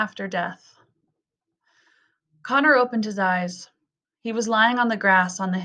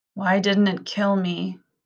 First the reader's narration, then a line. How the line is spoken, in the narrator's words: he groaned